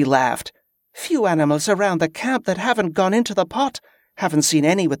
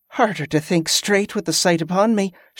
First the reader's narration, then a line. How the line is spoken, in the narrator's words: she said with a nervous laugh